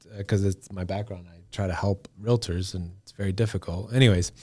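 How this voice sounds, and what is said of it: Usual voice. Nothing is said of it.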